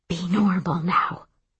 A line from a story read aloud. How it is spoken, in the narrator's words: she whispers